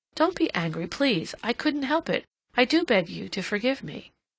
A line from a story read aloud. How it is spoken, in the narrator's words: Cassandra exclaimed impulsively